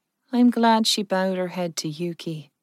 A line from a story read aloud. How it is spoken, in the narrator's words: Jen said softly